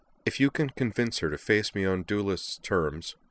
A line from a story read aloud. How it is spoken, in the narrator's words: told them flatly